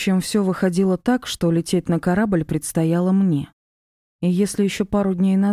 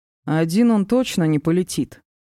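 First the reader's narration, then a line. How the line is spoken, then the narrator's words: Snort. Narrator (Russian): хмыкнул Диар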